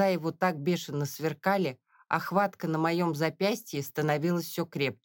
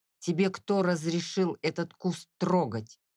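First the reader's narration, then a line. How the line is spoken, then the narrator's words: Through clenched teeth. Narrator (Russian): процедил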